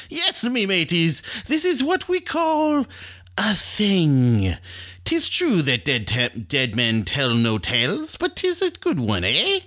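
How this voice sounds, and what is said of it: Pirate character voice. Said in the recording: “Talk Like a Pirate”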